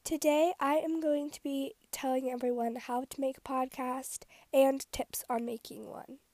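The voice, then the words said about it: Slightly sick, congested voice. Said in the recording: “my voice sounds a little weird, like sick, because I've been really, like, allergic lately”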